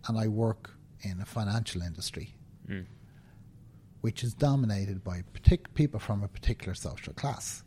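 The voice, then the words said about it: Dublin Irish accent. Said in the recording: “You can tell from my accent that I was born and live in Dublin”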